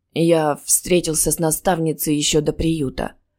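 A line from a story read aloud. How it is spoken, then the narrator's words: Reminiscing. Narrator (Russian): вспомнил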